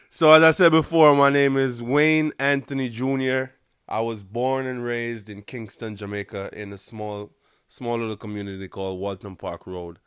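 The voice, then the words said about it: Strong Jamaican accent. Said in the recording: “I got an accent ... My accent is really fucking strong ... how real Jamaicans talk”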